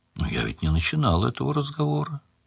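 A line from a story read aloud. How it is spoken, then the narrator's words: Quiet. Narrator (Russian): тихо сказал Анрах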